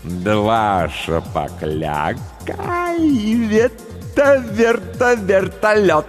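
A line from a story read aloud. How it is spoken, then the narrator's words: Laughing. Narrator (Russian): Он засмеялся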